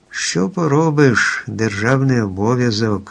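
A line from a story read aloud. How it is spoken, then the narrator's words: Lion sighing. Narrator (Ukrainian): зітхнув лев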